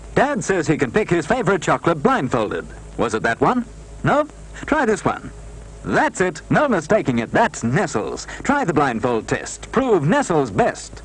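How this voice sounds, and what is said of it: Transatlantic accent. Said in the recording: “talking in a transatlantic accent”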